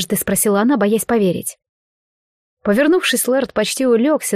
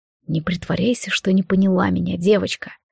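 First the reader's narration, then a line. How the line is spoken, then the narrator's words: Purring. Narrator (Russian): промурлыкал Монтрос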